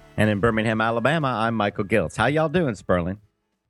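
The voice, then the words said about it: Southern American accent. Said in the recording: “it's very funny you should have that accent on today's show ... it's a Southern accent, correct? ... Kind of.”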